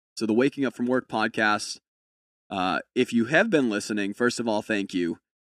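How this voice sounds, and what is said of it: Sick-sounding, low-energy voice. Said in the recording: “my voice is a little bit different tonight ... this week I am deathly sick ... a little bit less energy”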